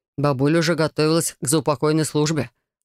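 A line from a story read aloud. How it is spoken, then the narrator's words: Wry chuckle, easing tension. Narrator (Russian): хмыкнул Райт, стараясь хоть немного разрядить напряженную обстановку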